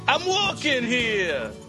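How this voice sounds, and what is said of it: Unconvincing attempted Brooklyn accent. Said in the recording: “No, that was pretty bad. ... you don't sound anything like you're from Brooklyn when you do that. I don't know what the accent is. It's odd.”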